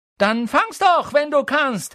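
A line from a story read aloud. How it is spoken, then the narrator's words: Shouted taunt. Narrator (German): schrie er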